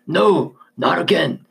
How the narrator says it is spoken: Marcus yelled through gritted teeth, his voice now more like a growl than words

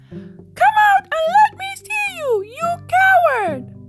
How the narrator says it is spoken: Ramzi got really angry and shouted at the top of his voice

